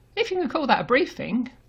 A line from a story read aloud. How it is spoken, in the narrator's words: Grant scoffs